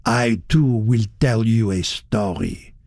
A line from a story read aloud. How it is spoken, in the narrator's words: he said thickly